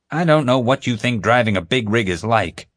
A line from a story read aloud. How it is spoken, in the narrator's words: Greg growled